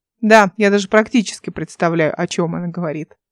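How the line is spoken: Giggling. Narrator (Russian): Эл хихикнула

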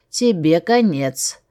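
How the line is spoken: Furious growl. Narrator (Russian): Оно буквально исказилось от злости, когда он прорычал

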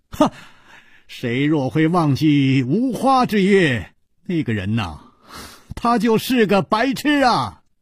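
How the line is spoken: Loud laughing. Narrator (Chinese): 楚留香高声笑道

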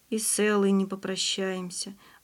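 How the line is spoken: Sighing. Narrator (Russian): вздохнул Андрей

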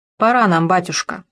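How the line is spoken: Curt, clipped. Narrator (Russian): отрывисто сказал сын

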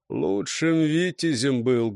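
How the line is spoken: Muffled. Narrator (Russian): глухо проговорил Неуступ

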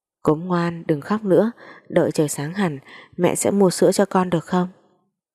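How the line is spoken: Sobbing, trembling voice. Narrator (Vietnamese): bờ vai run rẩy, nức nở nói

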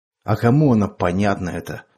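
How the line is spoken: Tired snapping. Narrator (Russian): устало огрызнулся Андрей

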